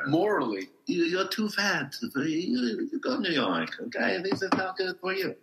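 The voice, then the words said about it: Put-on Romanian accent. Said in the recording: “clearly from the accent, he's not local. ... He's Romanian.”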